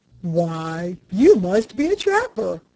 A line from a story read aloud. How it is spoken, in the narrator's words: exclaimed a thick-set, middle-aged man